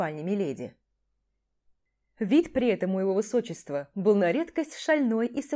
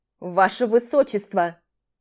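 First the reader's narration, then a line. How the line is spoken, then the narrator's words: Howl behind door. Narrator (Russian): взвыл за дверью Титор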